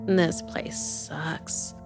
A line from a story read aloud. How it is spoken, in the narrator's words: she muttered